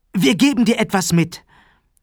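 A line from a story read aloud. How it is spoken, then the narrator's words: Calling out. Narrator (German): rief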